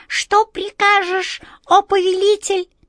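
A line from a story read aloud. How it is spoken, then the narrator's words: Weak squeak. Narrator (Russian): пискнула она слабым голоском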